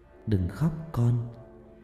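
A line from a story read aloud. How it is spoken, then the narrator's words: Soft gentle voice. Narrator (Vietnamese): tiếng nói khe khẽ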